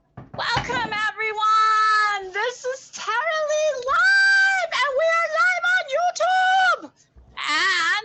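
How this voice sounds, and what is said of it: Loud, excited, near-screaming voice. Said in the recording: “I'm sorry if I'm screaming in your ears, because I am so excited”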